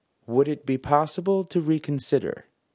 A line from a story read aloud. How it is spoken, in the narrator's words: said the tick